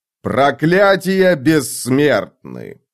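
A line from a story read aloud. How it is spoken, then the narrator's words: Approving grunt. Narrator (Russian): сказал Карса и одобрительно хмыкнул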